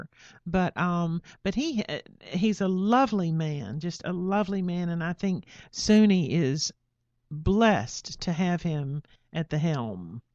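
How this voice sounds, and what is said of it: Regional American accent, not New York. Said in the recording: “y'all know from my accent that I'm not a New Yorker”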